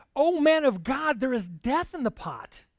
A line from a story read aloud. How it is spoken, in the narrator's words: they cried out and said